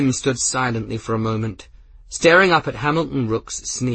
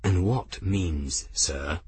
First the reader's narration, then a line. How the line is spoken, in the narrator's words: he asked quietly